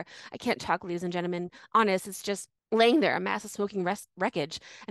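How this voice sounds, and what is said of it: Panicked, frantic reading. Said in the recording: “I could feel the panic in the way you read it”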